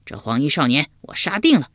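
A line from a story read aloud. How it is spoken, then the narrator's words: Loud voice. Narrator (Chinese): 秋亚高声说道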